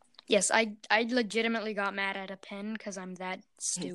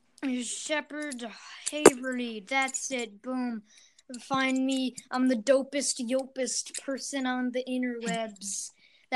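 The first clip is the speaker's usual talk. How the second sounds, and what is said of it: Imitates another person's voice. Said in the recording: “That was my impression of a Logan Paul impersonator who's bad at his job.”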